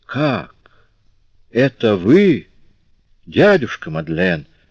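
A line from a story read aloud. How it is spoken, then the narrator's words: Exclaiming man. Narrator (Russian): воскликнул человек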